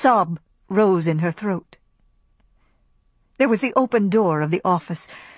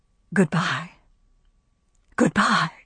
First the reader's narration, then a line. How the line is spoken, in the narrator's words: articles of furniture seemed to whisper